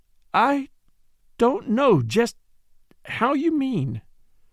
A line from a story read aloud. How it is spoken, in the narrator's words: she stammered